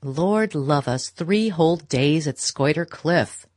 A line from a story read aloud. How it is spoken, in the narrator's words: Beaufort was saying in his loud, sneering voice